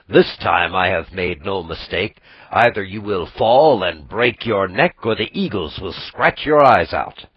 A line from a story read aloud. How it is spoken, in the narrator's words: laughed Mishosha